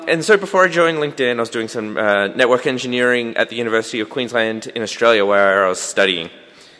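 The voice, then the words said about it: Mild Australian accent. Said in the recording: “I have somewhat of a funny accent. I am Australian, but I do sound less Australian than Brendan.”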